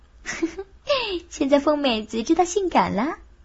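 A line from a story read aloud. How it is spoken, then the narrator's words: Giggling. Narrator (Chinese): 孙倩就咯咯地笑着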